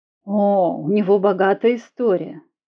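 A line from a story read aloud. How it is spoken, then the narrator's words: Pleased, eager. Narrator (Russian): Дама с удовольствием подхватила тему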